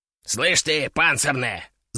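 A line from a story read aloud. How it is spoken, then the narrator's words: Hissing. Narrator (Russian): зашипел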